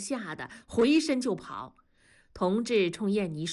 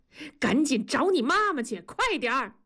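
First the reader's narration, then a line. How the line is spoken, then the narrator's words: Shouting. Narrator (Chinese): 同志 冲南方喊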